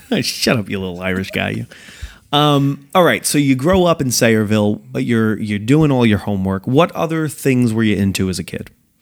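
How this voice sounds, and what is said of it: Strong Italian-American accent. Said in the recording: “a super Italian-American accent, too ... Yeah, completely.”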